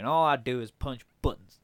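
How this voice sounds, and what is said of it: A bit of a southern accent. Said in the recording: “He did a bit of a southern accent there.”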